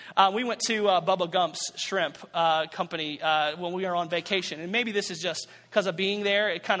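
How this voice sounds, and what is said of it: Usual voice. Nothing is said of it.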